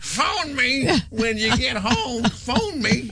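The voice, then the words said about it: Imitation of an elderly grandmother. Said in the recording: “my imitation of my grandmother”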